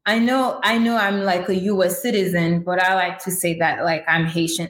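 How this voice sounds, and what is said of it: Haitian-accented English. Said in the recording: “I am from Haiti. And if you hear an accent, it's because I speak English, I speak French, I speak Haitian Creole”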